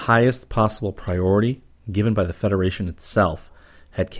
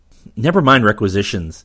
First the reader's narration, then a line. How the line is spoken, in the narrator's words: Rip snapped